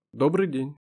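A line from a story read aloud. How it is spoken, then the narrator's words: Plain, in Russian. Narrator (Russian): сказал Дронго по-русски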